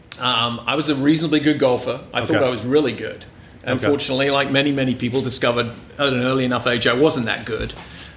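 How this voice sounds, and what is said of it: English accent. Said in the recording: “folks can probably tell from your accent that maybe you weren't born in the United States ... we're going to go back to England”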